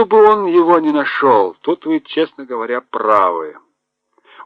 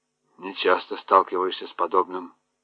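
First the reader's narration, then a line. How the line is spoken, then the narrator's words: Mutter. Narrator (Russian): пробормотал он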